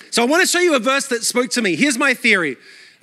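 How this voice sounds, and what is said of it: Mixed Australian-American accent. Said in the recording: “My accent is a mutt. Australia all my life, then New York City for 12 years... I sound Australian to Americans and American to Australian.”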